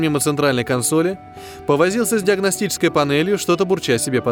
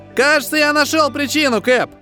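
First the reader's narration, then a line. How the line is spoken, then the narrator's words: Exclamation. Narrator (Russian): воскликнул Хэп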